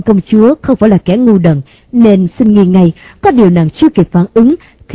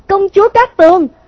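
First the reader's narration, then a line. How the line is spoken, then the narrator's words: Panicked loud shout. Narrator (Vietnamese): Hắn hốt hoảng thét to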